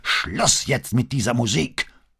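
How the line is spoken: Roaring again. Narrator (German): brüllte er wieder

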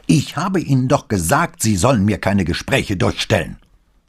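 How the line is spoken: Angry shout. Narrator (German): Verärgert Pater schrie in die Muschel

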